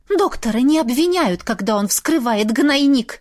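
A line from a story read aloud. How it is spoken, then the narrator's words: Angry hiss. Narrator (Russian): со злостью прошипела Софья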